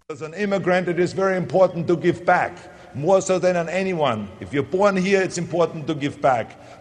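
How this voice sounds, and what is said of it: Austrian-accented English. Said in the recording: “with my accent, I was worried they're going to deport me back to Austria”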